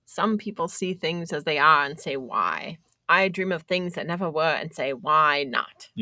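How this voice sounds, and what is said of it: Put-on Boston accent. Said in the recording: “You got the Boston accent down.”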